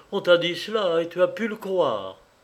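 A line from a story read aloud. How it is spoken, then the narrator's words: Indignant exclamation. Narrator (French): s'écria Madeleine révoltée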